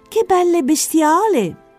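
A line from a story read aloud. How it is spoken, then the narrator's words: Exclaimed. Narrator (Italian): esclamò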